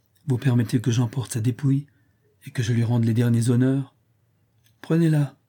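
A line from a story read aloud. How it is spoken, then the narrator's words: Harsh. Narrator (French): dit-il durement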